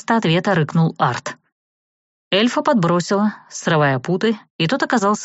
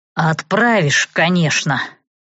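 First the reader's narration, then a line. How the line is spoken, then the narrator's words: Hoarse voice. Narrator (Russian): раздался сиплый голос Савелия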